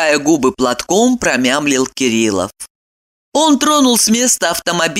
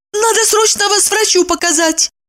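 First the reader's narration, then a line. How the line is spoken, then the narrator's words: Frightened exclamation. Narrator (Russian): пугаясь, воскликнула Евдокия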